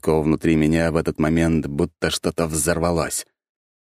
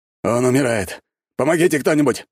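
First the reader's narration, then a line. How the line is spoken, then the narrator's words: Exclaimed by a boar. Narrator (Russian): воскликнул вепрь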